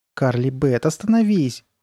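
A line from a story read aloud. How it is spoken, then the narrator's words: Pleading. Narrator (Russian): взмолилась Сабрина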